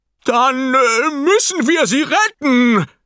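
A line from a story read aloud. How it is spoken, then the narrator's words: Very loud roar. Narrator (German): brüllt er, und die Gläser zittern im Schrank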